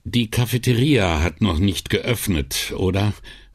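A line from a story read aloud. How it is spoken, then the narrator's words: Tired rather than suspicious question. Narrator (German): fragte er und klang auf einmal eher müde als argwöhnisch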